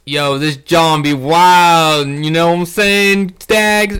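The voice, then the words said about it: Attempted Philly accent, sounds Southern. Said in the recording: “Was that a Southern accent? I tried to do a Philly accent”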